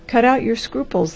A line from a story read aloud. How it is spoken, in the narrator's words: laughed the doctor